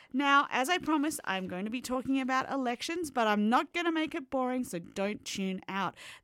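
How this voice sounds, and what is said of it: Australian accent. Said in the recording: “as you can tell by the accent, I'm not Canadian ... I'm from Australia”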